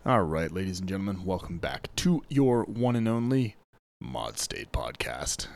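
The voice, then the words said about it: Late-night FM DJ voice. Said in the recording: “I got that late night FM DJ voice here”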